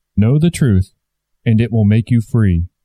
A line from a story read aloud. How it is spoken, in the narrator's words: said the Christ